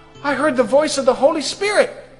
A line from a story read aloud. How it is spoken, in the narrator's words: started shouting that outside